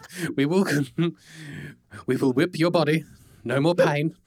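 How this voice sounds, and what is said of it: Bad put-on German accent. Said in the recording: “doing like a really bad German accent thing”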